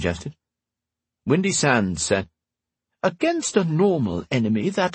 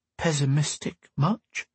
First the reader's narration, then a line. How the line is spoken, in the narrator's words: she muttered